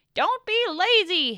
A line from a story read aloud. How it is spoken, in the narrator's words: yelled